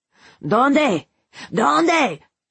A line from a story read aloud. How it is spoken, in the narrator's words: he screamed at his daughter